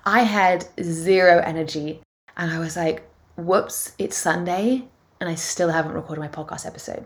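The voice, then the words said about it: Tired, crackly and croaky voice. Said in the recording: “I am tired ... you can probably hear it in my voice. It's quite crackly and croaky.”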